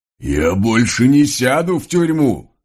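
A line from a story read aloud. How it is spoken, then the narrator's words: Sudden yell. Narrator (Russian): Вдруг заорал вороной конь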